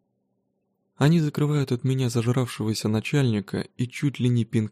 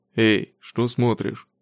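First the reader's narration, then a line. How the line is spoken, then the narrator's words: Growl. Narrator (Russian): рыкнул придурок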